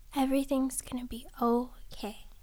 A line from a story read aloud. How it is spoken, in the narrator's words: whispering softly